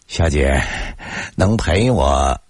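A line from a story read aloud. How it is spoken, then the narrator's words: Feigned attentive smile. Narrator (Chinese): 我故作殷勤的冲他笑了笑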